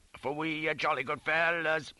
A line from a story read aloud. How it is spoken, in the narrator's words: Kutubara was roaring and I was chanting